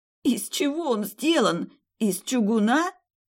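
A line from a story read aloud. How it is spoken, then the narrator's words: Hoarse, straining to rise. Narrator (Russian): прохрипела, пытаясь встать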